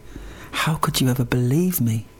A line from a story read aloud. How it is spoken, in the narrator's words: she smiled and said softly